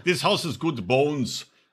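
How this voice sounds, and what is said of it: Put-on accent. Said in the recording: “you poisoned my fucking accents ... It's a hard one to do. It's not easy. ... I got it back.”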